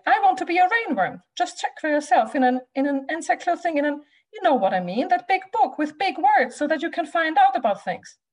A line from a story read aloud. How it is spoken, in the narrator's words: cried Rudy